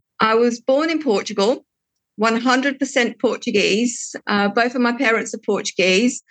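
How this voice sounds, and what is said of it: British English accent. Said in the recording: “I know that you have a British accent”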